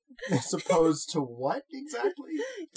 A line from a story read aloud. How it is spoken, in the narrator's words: Damon laughed a laugh that she felt in her bones